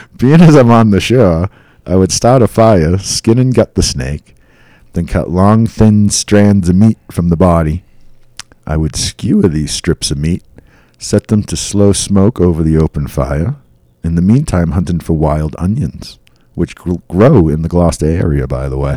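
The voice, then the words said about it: Put-on accent while reading. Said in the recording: “I lost my accent for a minute, and then it came back. Did you hear that?”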